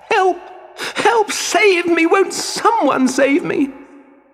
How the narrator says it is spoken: Poor Pinocchio felt so lost and alone that he cried and screamed

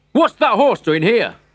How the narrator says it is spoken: shouted

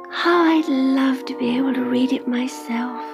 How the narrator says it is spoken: she sighed

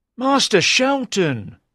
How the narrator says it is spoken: cried Lawless

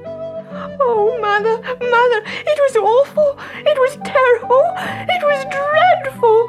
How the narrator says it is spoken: sobbed Goldilocks

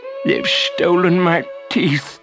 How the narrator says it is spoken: sobbed Longtooth

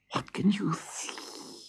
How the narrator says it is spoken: hissed the cat

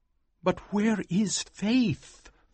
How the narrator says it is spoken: thought nervously

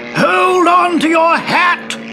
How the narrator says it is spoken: yelled the commander

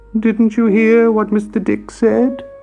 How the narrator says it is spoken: wailed Trumple

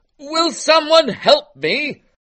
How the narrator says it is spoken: Frederick cried out

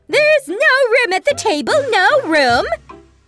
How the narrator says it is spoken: the March Hare and the Hatter saw Alice, they shouted

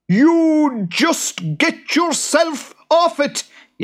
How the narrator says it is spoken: yelled the boggart

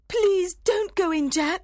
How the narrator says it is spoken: cried

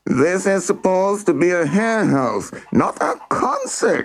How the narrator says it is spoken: yelled

